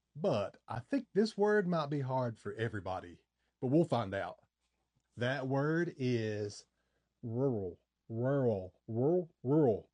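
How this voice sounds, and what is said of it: Slight Appalachian eastern Kentucky accent. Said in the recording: “I'm in the Appalachian Mountains. I grew up here in eastern Kentucky, and of course, I've got a little bit of an accent.”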